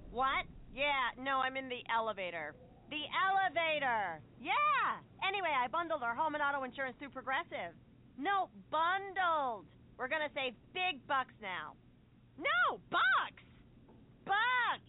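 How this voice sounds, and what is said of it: Loud phone talker in elevator. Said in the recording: “my impression of a person having a phone conversation in the elevator”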